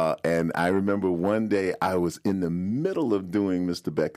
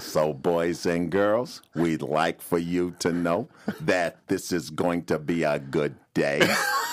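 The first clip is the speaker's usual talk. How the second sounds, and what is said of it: Imitates another person's voice. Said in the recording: “impersonations ... one of my most accurate impersonations, was of our school principal”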